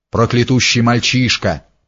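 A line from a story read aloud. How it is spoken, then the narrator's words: Grumbling. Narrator (Russian): проворчал Федька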